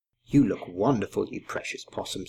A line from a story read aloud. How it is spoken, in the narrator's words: said Grandma Poss